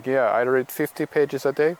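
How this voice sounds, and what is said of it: Attempted German accent. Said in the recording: “that was my attempt at a German accent”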